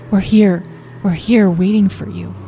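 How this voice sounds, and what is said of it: Soft, gentle voice. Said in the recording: “he said in a soft voice.”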